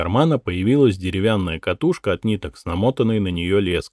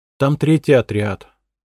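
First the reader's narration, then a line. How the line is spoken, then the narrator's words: Boy sighing like adult. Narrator (Russian): пацан вздохнул по-взрослому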